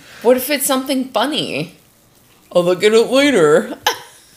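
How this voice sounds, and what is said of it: Imitates another person's voice. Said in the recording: “very, very good Jack impression”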